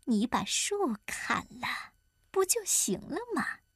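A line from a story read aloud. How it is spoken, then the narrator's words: Whispering. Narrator (Chinese): 八一老婆悄声对他说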